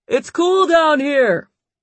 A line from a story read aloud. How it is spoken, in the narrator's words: David yelled up